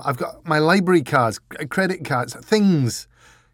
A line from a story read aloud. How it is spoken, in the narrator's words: he added desperately